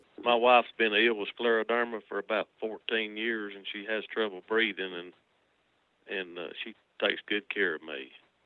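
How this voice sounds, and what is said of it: Likable regional accent. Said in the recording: “I love your accents. ... But I love your accents. I could listen to you talk all day long.”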